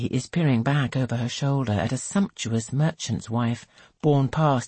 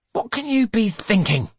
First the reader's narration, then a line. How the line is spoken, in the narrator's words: he snaps